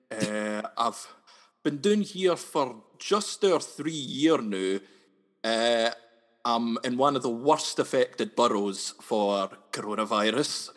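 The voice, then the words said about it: Noticeable regional accent. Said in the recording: “You can really read it on my accent.”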